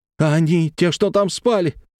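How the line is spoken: Horrified exclamation, hiccuping. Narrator (Russian): с ужасом воскликнул Петров, стараясь утихомирить нервно дергающуюся челюсть и подавить навязчивую икоту

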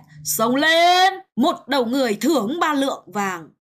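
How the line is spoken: Loud battle shout. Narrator (Vietnamese): tướng sĩ địch cao giọng là hét

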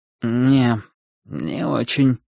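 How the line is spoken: Sleepy. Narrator (Russian): сонно ответил он

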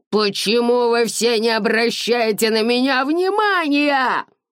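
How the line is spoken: Shrieking. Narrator (Russian): визжал Дэрил

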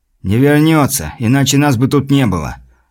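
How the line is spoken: Calm, casual. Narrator (Russian): Спокойно продолжил он, как ни в чем не бывало

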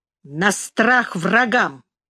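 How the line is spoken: Angry reply. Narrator (Russian): отвечал, сердито

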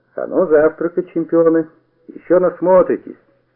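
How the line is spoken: Cheerful. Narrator (Russian): Он весело оглянулся и, сказал нам

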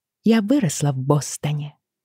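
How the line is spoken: Soft, matter-of-fact. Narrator (Russian): промолвила Бриана, мягко и буднично

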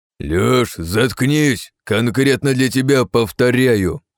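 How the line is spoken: Growling commander. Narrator (Russian): зарычал командир

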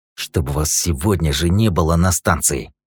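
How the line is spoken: Hissing. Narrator (Russian): прошипел хранитель

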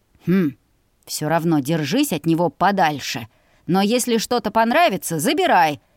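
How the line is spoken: Grunting. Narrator (Russian): хмыкнул он

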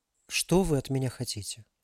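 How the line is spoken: Uncertain question. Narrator (Russian): Неуверенно спросила Алиса

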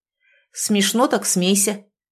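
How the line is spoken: Bitter grumble. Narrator (Russian): буркнул Трубецкой, кусая до крови губы

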